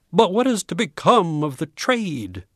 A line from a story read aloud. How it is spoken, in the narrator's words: cried a frantic bookseller